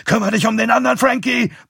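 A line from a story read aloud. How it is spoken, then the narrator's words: Grandfather bellowing. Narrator (German): brüllt Großpapa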